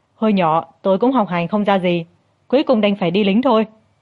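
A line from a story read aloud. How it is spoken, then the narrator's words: Hearty laughing. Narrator (Vietnamese): Trương Dân bật cười ha hả, nói rằng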